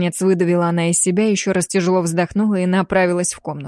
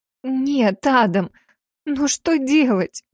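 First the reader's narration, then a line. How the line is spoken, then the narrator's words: Tearful hoarse young woman. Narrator (Russian): со слезами прохрипела девица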